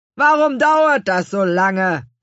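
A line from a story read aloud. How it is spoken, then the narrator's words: Calling out. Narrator (German): rief Herr Kümmerling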